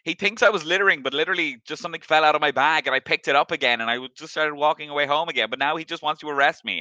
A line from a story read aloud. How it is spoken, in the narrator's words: he's screaming